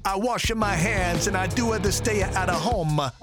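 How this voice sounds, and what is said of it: Funny put-on Italian accent. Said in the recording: “Talk to yourself in a funny accent. I picked Italian.”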